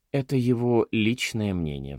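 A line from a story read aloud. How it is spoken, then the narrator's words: Sighing. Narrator (Russian): вздохнул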